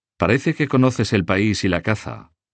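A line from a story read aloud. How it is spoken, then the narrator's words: Plain. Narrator (Spanish): dijo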